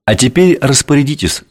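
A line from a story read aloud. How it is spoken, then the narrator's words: Plain. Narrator (Russian): сказал демиург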